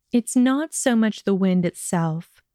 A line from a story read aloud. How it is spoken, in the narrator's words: she answered evenly